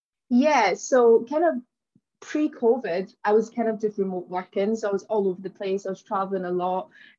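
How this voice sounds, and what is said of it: Glaswegian Scottish accent. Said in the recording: “you'll notice from my accent, that I'm originally from Glasgow in Scotland”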